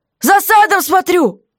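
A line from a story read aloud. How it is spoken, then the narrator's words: Roaring. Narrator (Russian): Проревела дыра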